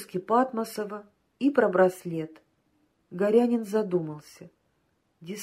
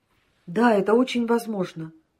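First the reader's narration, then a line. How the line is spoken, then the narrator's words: Exclaimed. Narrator (Russian): воскликнул Прохоров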